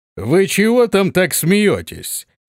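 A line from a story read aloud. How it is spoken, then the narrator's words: Loud commanding question. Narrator (Russian): спросил он зычным, властным голосом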